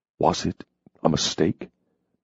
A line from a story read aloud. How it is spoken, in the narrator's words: He asked softly